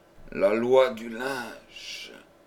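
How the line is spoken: Stammering in terror. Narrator (French): balbutia-t-il à demi-mort d'épouvante

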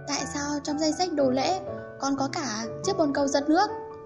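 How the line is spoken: Trembling voice. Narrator (Vietnamese): giọng nói run run

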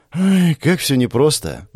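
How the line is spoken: Sighing. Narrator (Russian): вздохнула девушка

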